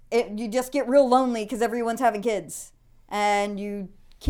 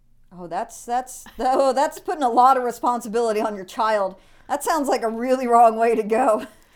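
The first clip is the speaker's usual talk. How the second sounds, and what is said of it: Sarcastic tone. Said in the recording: “That was sarcasm”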